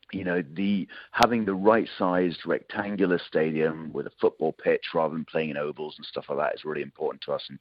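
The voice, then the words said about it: British accent. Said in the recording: “I'm probably tell from accent I'm a Brit”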